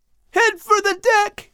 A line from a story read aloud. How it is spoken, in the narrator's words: Al screamed, his eyes wild with fear